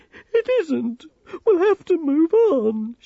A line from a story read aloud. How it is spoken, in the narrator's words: she sobbed